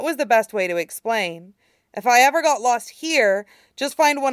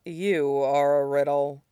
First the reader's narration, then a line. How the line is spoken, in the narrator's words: Shidan said dryly